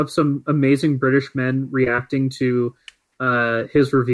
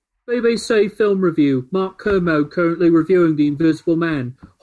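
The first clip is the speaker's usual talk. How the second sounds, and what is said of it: Put-on British accent. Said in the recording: “Whatever tweet you read, you have to do it in a British accent.”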